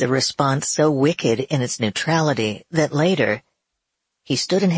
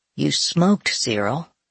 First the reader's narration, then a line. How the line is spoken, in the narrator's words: Wyatt replies quietly